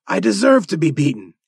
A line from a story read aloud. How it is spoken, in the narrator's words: he cried